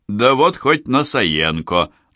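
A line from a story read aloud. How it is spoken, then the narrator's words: Guffawing. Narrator (Russian): захохотал Борис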